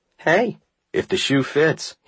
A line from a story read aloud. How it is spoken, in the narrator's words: he shrugged